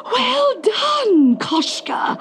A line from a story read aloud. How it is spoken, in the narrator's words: gasped his aunt